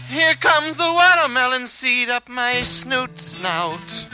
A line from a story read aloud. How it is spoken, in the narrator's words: scream and shout